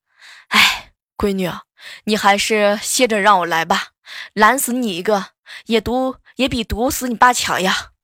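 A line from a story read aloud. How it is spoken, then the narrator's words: Sighing father. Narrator (Chinese): 我老爸直接叹了一口气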